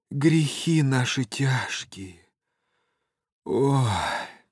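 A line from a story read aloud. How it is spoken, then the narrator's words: Sighing near-whisper. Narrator (Russian): кто-то вздохнул и даже как будто прошептал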